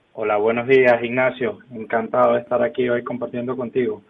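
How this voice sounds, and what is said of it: Venezuelan Spanish accent. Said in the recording (Spanish): “ese acento no es muy gallego ... Venezolano, venezolano.”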